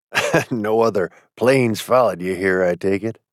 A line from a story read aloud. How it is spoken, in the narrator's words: said, chuckling